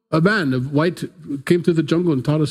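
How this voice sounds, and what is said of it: Put-on foreign-sounding accent. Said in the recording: “I use that accent because I don't know what they sound like. But it's, you know, not from here.”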